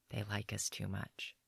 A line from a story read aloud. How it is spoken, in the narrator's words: She whispers